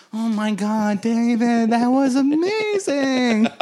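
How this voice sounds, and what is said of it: Impression of a co-host. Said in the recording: “Such an impressive your impression of me.”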